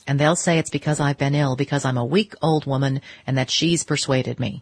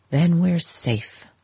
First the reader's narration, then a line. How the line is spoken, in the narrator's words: she sighed